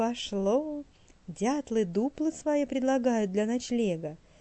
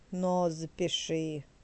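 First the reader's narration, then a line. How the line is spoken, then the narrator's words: Muffled grumbling beavers. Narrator (Russian): проворчали бобры из своей хатки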